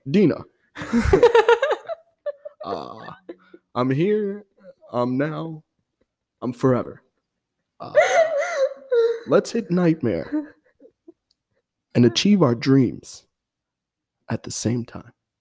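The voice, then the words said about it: Imitates another person's voice. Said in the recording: “such a good impression ... the sigh, the grunt”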